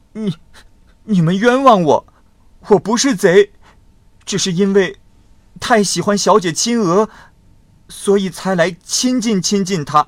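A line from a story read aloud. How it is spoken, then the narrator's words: Crying, pleading. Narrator (Chinese): 众人骂他是贼，大声的呵斥他，他才哭着说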